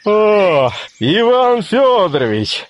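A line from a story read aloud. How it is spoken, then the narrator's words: Stout man shouting. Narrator (Russian): закричал толстый Григорий Григорьевич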